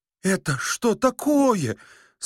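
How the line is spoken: Old man, dejected voice. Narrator (Russian): спросил старик упавшим голосом

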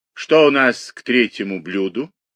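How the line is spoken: Languid, suffering woman's question. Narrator (Russian): спросила она томным страдальческим голосом

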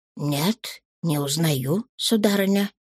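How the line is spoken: Muttered. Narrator (Russian): Я пробормотал

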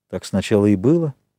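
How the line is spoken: Plain. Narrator (Russian): сказал Ральф

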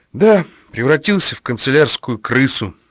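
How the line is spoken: Sighing. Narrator (Russian): вздохнул Масляев

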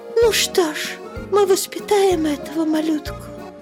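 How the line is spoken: Whisper. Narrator (Russian): прошептала Берта

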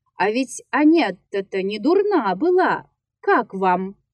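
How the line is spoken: Shouting. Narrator (Russian): Он кричал мне

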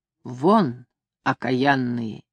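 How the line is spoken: Quiet. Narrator (Russian): сказала негромко

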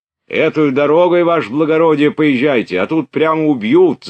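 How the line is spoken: Shouting. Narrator (Russian): закричал солдат

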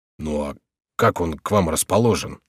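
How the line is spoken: Plain. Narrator (Russian): спросил Горанфло

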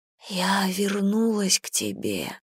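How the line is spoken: Whisper. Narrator (Russian): прошептала Гэм

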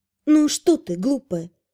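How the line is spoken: Quiet. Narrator (Russian): тихо сказала я

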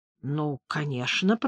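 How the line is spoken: Mutter. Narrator (Russian): пробормотал Мортон

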